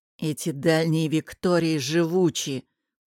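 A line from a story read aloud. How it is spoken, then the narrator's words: Hissing. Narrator (Russian): прошипел сьор Аль-Хали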